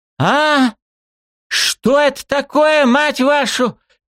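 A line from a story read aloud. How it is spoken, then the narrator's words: Frightened scream. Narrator (Russian): Перепуганно вытаращив глаза, закричала Калахара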